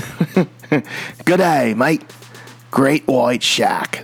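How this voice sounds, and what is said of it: Weak put-on Australian accent. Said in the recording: “I can't really do Australian ... Part of my Australian accent is just saying Great White Shark”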